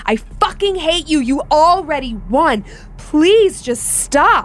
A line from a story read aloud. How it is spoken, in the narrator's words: My mom burst out screaming and crying